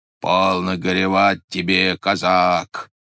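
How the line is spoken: Booming bass. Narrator (Russian): загремело что-то басом над ним

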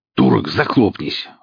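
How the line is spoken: Growl. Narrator (Russian): рыкнул он

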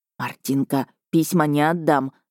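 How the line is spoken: Whispering in ear. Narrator (Russian): зашептал мне в ухо Михась

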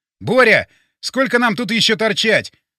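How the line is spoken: Shouted. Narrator (Russian): крикнул я

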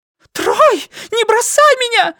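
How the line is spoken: Shrieking woman. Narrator (Russian): завизжала его дама

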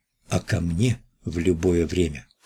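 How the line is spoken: Whispered in ear. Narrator (Russian): шепнула Валентина Петровна в ухо

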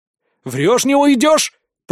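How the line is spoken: Shout. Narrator (Russian): прокричал

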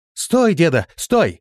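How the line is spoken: Shouting. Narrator (Russian): крикнула она

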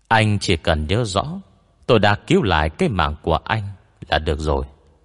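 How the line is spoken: Gloomy smiling speech. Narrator (Vietnamese): ảm đạm cười nói

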